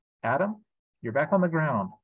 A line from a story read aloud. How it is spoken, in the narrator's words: the king said gently